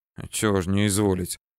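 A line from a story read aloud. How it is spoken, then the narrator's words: Mutter under breath. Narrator (Russian): буркнул я себе под нос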